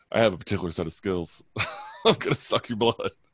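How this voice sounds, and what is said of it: Imitates another person's voice. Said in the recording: “Can you imagine Liam Neeson's accent?”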